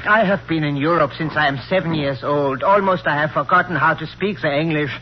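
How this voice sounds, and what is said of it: Foreign accent. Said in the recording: “With that accent?”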